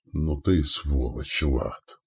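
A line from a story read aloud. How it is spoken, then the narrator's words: Hoarse. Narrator (Russian): прохрипел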